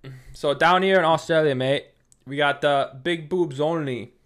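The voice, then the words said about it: Failed attempt at Australian accent. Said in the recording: “I don't know what accent that really went to... Not Australia.”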